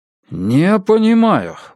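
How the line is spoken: Exclaimed. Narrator (Russian): воскликнул

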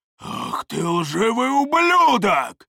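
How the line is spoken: Roaring. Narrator (Russian): взревел второй близнец

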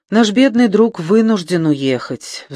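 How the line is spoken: Sigh. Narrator (Russian): вздохнула Элизабет

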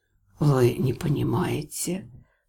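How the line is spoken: Anguished whisper. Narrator (Russian): с настоящей тоской прошептал целитель

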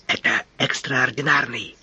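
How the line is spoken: Whisper, officer. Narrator (Russian): шепнул офицер

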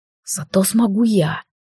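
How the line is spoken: Grumbling mutter. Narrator (Russian): буркнул Лилайн

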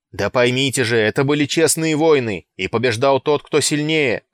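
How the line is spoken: Straining shout. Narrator (Russian): кричал, надсаживаясь Нерул

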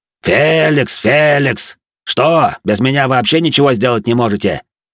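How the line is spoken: Gruff barking shout. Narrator (Russian): гаркнул он на работяг

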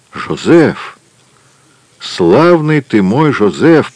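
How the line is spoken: Muttered while struggling up. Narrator (Russian): пробормотал, с трудом поднимаясь

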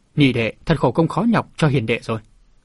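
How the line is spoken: Smiling. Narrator (Vietnamese): Cậu Thúc Thúc mỉm cười

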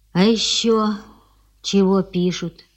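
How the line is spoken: Flexible masculine-voiced questioning. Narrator (Russian): выспрашивает она мужским, но очень гибким голосом

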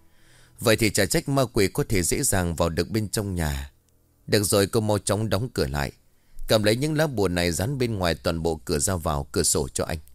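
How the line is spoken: Sighing. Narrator (Vietnamese): Ông Lân liền thở dài

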